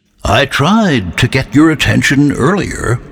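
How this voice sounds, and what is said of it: Deep, strong, soothing character voice. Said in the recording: “His deep voice was strong, but somehow soothing.”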